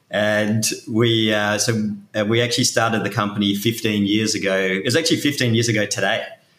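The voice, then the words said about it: Australian accent. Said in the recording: “in case you couldn't tell from my accent, I'm Australian”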